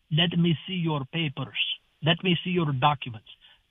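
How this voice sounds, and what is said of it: Put-on foreign accent. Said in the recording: “Let me say these words so you can understand the accent.”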